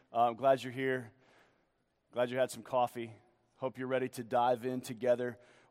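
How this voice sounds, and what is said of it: Voice deeper and lower than usual. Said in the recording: “My voice got a little bit deeper since last night. I yelled a lot last night, and so I'm a little lower this morning.”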